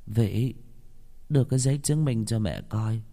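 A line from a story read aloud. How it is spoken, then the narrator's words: Old woman, trembling. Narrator (Vietnamese): Bà già run run đáp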